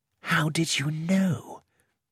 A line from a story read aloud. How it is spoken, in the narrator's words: I whispered to Poirot